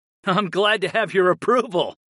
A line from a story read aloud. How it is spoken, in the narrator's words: I laughed